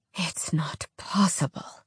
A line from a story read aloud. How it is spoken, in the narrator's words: Avon whispered